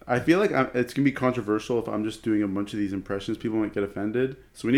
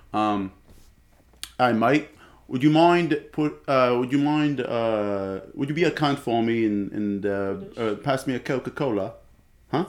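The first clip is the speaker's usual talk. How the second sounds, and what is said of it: Unconvincing put-on British Isles accent. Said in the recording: “Can you do the Australian accent? ... It's British. ... That's Irish. Man, you need to practice. ... I am trying to do a Welsh accent. Because Welsh also sounds a bit Irish.”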